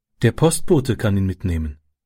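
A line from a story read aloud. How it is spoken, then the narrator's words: Calm woman. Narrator (German): sagte die Frau ruhig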